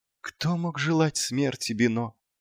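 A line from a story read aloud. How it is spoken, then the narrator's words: Barely audible. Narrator (Russian): едва слышно проговорил клоун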